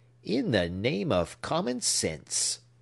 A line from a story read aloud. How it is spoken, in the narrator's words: asked the old gentleman rather testily